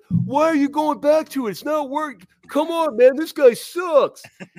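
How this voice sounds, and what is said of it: Imitates Bengals fans. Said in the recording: “That's a really at, good impersonation there of ... Bengals fans.”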